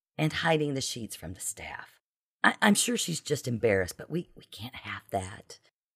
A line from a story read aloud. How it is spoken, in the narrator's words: Beverly frowned, whispering